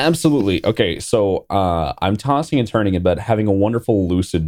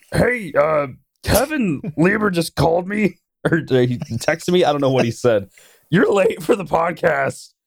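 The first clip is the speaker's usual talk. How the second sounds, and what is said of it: Imitates another person's voice. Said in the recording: “this is my best impression of him”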